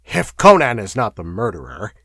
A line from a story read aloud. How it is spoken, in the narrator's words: he snapped